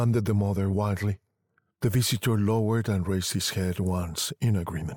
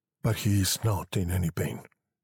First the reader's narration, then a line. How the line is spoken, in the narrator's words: he said quietly